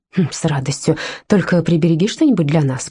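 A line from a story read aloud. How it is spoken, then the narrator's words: Whisper. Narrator (Russian): прошептала Лаура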